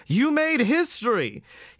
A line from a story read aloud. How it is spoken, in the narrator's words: he barely blurts out before descending into a grotesque performance of regurgitory action